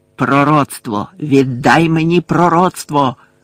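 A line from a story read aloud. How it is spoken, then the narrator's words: Growl in the ear. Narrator (Ukrainian): загарчав йому на вухо Луціус Мелфой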